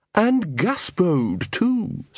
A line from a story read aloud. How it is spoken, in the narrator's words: said the poodle